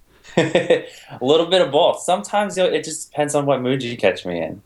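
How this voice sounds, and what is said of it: British or Australian-sounding accent. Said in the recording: “it sounds like you have a bit of a British or maybe Australian accent”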